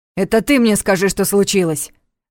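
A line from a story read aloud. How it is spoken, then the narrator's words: Sudden sharp bark. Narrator (Russian): Внезапно резко гаркнул Ваня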